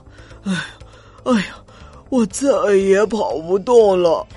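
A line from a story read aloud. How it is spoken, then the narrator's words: Heavy panting. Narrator (Chinese): 驴子喘着粗气说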